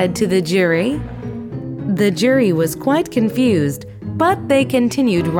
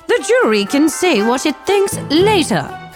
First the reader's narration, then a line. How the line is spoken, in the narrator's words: cried the queen